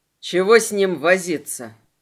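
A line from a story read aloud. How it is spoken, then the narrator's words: Grumbled. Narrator (Russian): пробурчал Селим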